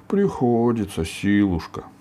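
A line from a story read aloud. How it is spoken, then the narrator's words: Sad ogre voice. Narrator (Russian): сказал печально людоед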